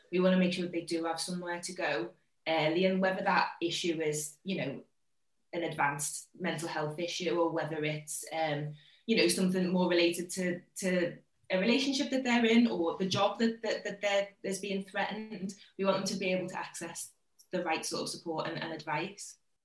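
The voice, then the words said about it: Liverpool accent. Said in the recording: “your accent betrays where your location is, because you're from Liverpool”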